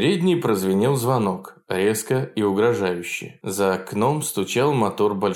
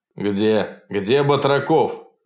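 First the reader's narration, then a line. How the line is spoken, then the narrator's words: Loud question. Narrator (Russian): громко спросил Иван Данилович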